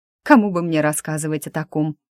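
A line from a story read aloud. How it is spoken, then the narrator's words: Snorting. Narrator (Russian): фыркнул Лиза Дымов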